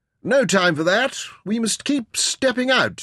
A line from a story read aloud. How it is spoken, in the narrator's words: Stuart snapped